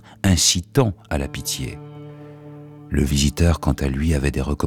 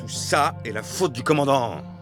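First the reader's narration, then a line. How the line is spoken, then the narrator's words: Furious shouting. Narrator (French): cria l'officier, hors de lui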